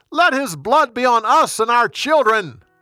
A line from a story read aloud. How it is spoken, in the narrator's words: They shouted